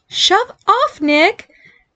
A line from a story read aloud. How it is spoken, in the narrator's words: angry at how unthreatening his squeaky girl voice sounded